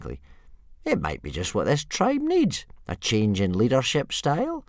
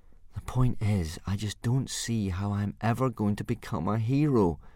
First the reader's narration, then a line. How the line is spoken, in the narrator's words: said Hiccup gloomily